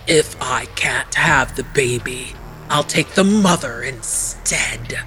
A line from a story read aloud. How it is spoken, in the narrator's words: Arpe hissed